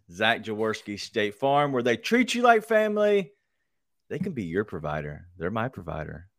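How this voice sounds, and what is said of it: Deliberately sexy, seductive voice. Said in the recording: “that's my sexy voice ... That sexy voice was nice ... Coming in hot with that ... That's my drinking voice”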